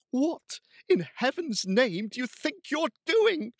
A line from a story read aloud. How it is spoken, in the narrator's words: she cried